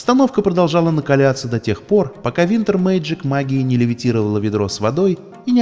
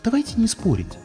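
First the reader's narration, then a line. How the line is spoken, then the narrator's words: Barely audible attempt. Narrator (Russian): попыталась сказать Саммер Скай, но столь тихо, что брат с сестрой ее даже не услышали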